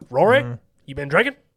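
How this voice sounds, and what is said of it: Imitates another person's voice, badly. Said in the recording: “doing a terrible impression ... Doing horrible.”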